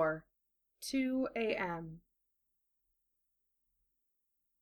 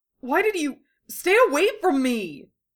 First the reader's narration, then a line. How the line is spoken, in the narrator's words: Kankuro shouted